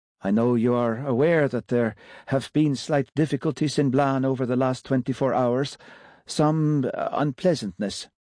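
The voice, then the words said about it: Sing-song Scandinavian accent. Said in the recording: “he said in his sing-song Scandinavian accent.”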